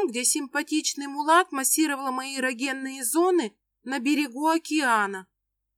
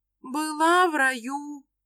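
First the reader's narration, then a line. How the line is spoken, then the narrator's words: Dreamy singsong. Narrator (Russian): Мечтающим голосом пропевает Рюмина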